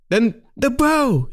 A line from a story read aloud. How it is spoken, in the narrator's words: he screamed